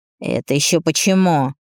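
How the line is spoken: Indignant question. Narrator (Russian): спрашивает возмущенно моей резкостью

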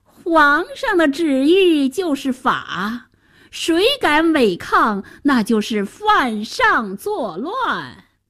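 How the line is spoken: Minister's sinister laugh. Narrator (Chinese): 白脸宰相奸笑着

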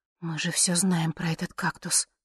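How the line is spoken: Whisper. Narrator (Russian): шепотом сказала я

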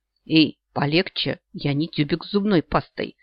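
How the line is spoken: Gasping wheeze. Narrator (Russian): просипела я, хватая ртом воздух

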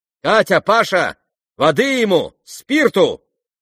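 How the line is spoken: Shout. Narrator (Russian): крикнула Настасья Филипповна

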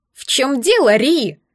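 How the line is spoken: Shrill shout over intercom. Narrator (Russian): раздался визгливый крик Дака в переговорнике

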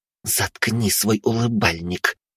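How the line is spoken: Hissed through clenched teeth. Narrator (Russian): прошипела Тара сквозь стиснутые зубы

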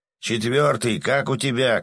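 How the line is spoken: Shout. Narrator (Russian): крикнул он

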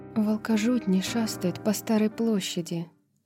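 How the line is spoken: Quiet hiss. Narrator (Russian): тихо прошипела Тариону Гипаксия

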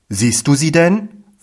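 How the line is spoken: Plain. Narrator (German): fragte ich

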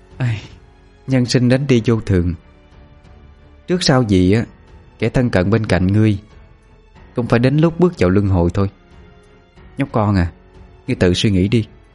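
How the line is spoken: Sighing. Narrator (Vietnamese): Cô gái thở dài mà nói

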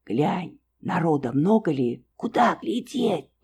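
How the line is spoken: Breathless fearful whisper. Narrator (Russian): Тоже шепотом, вся замирая не то от страха, не то от чего-то другого, ей непонятного, спросила

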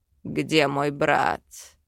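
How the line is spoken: Demonic growl. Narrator (Russian): рыкнул демон

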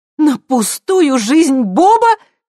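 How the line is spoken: Near shout. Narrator (Russian): почти закричала Хелен

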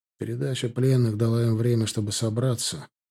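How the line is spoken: Even, level tone. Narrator (Russian): заметил ровным тоном

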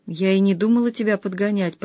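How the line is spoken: Mumbling. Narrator (Russian): промямлила Маруся

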